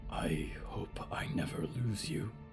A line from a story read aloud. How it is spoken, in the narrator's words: Diggory whispered